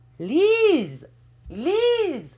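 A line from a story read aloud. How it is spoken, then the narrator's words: Aunt shouting. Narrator (French): cria la tante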